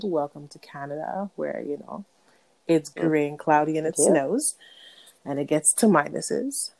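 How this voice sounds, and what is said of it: Raspy voice. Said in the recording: “apologize for my raspy voice. I might be coughing a little bit ... we're getting over this wonderful cold”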